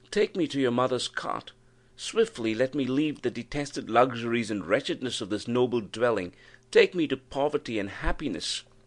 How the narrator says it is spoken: she exclaimed

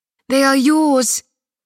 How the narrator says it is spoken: Lilius cries in a voice lush of garden and ripe of destiny

